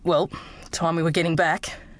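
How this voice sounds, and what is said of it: Low voice. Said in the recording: “in a low voice.”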